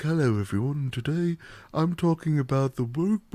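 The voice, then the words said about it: Soft, subtle British YouTuber voice (Vaati). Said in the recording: “very soft, like subtle British tones ... That impression ... Vaati ... his ASMR ... voice is amazing”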